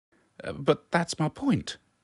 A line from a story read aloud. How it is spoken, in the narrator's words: she replied indignantly